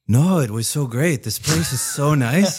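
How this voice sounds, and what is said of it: Put-on Mexican accent. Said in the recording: “Mexican accent. Pretty damn good, man.”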